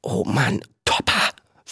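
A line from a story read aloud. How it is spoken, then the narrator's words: Whisper. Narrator (German): flüsterte Viggo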